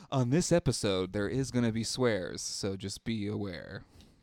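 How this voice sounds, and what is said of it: Public radio announcer voice. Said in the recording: “Is that your NPR voice? That's a very good NPR voice.”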